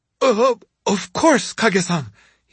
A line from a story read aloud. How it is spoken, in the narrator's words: he stammered